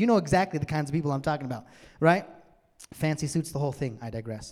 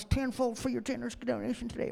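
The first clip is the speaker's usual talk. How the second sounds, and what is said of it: Bad put-on televangelist accent. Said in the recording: “Sorry, that's a bad accent”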